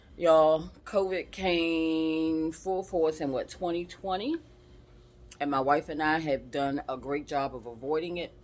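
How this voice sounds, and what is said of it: Slightly raspy voice. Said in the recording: “a little raspy in my voice, it's because I'm still recovering, recovering from COVID”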